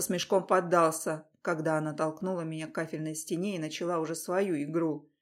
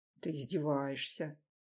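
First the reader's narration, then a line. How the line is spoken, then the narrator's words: Strangled mutter. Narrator (Russian): Сдавленно пробормотал я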